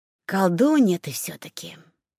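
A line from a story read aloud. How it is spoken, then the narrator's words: Admiring breathless exhale. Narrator (Russian): восхищенно выдохнул парень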